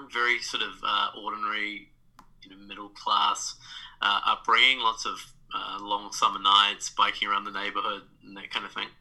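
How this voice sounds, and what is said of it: New Zealand accent. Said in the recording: “I have a funny accent. I'm from New Zealand”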